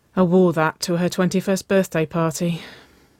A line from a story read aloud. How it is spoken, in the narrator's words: Waverly sighed